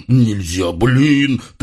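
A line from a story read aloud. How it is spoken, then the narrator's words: Gloomy snapping retort. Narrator (Russian): тоскливо огрызнулся мрачный хряк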